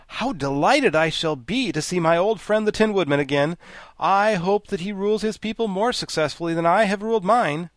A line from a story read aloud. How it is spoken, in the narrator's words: The Scarecrow became greatly animated at this sight, and exclaimed